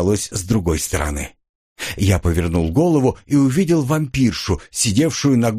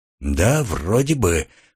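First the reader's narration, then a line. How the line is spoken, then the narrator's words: Hoarse reply. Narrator (Russian): хрипло ответил я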